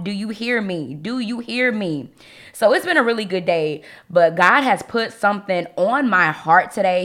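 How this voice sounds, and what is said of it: Slightly hoarse voice. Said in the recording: “I sound a little hoarse”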